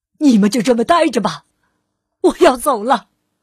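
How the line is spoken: Loud and despairing. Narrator (Chinese): 彻底的绝望了，他大声的说

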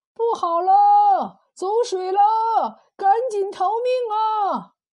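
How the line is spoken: Loud alarmed shout. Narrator (Chinese): 院子里有人高声呼喊

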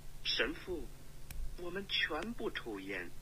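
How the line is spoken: Quiet answer in unison. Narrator (Chinese): 四个人都小声的回答

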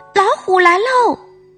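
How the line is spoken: Yelling child. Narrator (Chinese): 大头儿子大叫着

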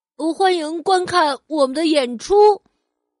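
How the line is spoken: Loud. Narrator (Chinese): 好宝大声说

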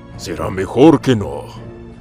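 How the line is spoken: Growling. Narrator (Spanish): gruñó Garrosh

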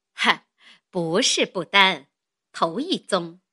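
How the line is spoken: Laughing. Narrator (Chinese): 林家的笑道

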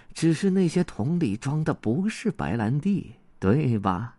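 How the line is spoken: Quiet voice. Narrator (Chinese): 文景魔王小声说道

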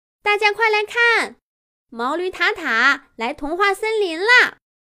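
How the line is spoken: Excited shout. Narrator (Chinese): 狮子兔的喊声

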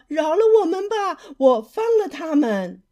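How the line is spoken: Shouting. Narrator (Chinese): 渔夫喊道

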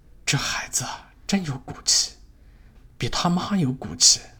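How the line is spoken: Admiring villagers. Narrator (Chinese): 乡亲们赞叹说

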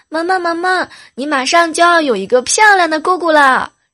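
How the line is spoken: Happy excited shout. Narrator (Chinese): 想到自己马上就要变瘦变美了，心里特别高兴，然后就冲着萌萌就喊

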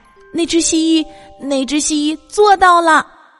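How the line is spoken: Shouting. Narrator (Chinese): 亚历山大叫起来

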